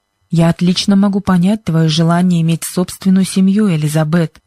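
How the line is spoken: Plain. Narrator (Russian): ответил мистер Джонсон

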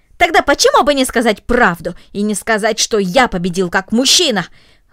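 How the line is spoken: Angry, disappointed exclamation. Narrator (Russian): воскликнул рассерженный, разочарованный Гренби

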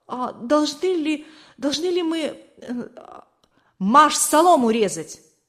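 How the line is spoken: Frozen, babbling. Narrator (Russian): Не в силах сдвинуться с места, он пролепетал

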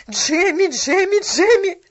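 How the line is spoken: Shout. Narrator (Russian): закричала

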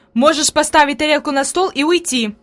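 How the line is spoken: Angry. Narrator (Russian): произнесла Фрейлин сердито

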